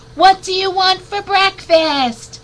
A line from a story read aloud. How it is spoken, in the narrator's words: Mom yelled